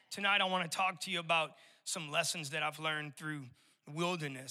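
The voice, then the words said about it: Raspy voice, slight New Orleans accent. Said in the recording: “I'm born and raised in New Orleans, and so I still got a little bit of that residual accent in my vocal cords. They're a little bit raspy”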